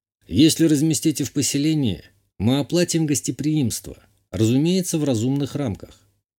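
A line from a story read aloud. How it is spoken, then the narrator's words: Calm. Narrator (Russian): спокойно сказал я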